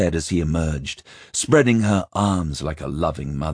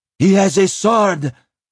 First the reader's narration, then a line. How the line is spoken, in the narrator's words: Vren shrieked from the doorway